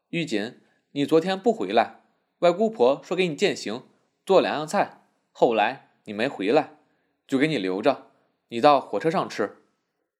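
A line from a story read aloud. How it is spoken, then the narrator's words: Mother, smiling. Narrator (Chinese): 他母亲笑道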